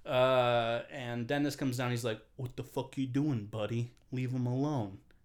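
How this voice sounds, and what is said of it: Put-on accent for a character. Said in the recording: “That's not what he sounds like, but I'm just giving him that accent.”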